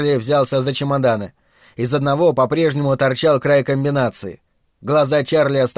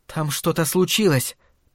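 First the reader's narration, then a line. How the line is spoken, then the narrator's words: Whispered. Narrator (Russian): прошептала она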